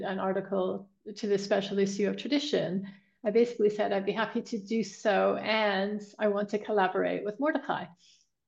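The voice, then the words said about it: North American accent. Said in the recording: “despite her North American accent, having lived in England for a long time”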